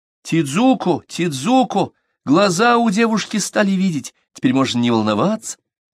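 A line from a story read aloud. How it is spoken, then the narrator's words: Mother's joyful announcement. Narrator (Russian): мама радостно объявила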